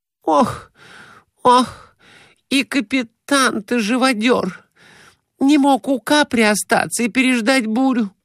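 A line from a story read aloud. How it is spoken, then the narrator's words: Moaning. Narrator (Russian): Глафира Семеновна стонала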